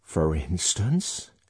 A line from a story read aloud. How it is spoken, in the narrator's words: she hoarsely whispered